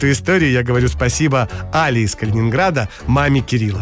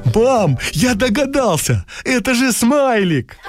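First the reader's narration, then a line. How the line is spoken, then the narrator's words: Joyful exclamation. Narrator (Russian): Кирюша радостно воскликнул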